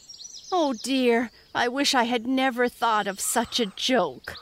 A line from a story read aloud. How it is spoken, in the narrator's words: moaned Peter